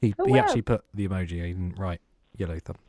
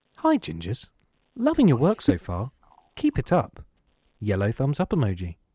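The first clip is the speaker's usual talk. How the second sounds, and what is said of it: Exaggerated voiceover announcer voice. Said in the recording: “going to do my best voiceover voice.”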